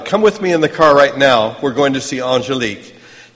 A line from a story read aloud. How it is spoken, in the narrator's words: He shouted